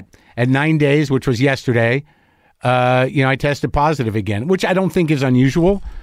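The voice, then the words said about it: Slightly scratchy, stuffed-up voice. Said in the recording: “My voice is a little scratchy. My head's a little stuffed up. I'm a little tired.”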